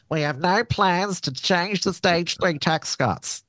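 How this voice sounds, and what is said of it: Impression of Anthony Albanese. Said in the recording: “my Albanese impression”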